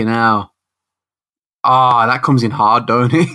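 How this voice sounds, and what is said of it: Usual voice. Nothing is said of it.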